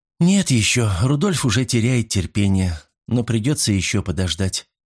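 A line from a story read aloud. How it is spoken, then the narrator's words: Sigh. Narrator (Russian): вздохнула Катарина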